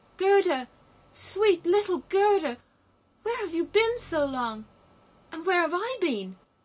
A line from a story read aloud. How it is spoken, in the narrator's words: He wept so much and shouted